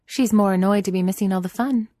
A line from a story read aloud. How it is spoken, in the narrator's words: Phryne says brightly